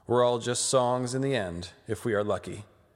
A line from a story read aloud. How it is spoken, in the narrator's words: Catelyn gloomily replies